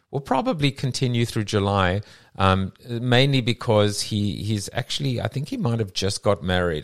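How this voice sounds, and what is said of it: Staten Island / South African accent. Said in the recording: “my Staten Island / South African accent”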